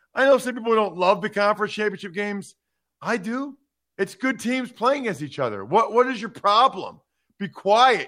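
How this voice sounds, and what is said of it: Loud yelling delivery. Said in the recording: “I don't know why I'm yelling at you... I'm yelling at those people, not you.”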